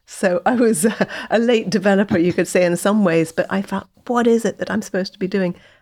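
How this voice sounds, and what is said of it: English accent. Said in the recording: “You can tell by the accent. I was born in England.”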